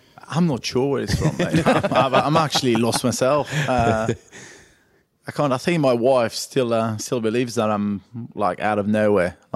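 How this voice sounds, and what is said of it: French accent mixed with northern English. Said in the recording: “obviously the French side. There's a bit of Warrington, a bit of Wigan ... It's a lovely little mix ... that accent.”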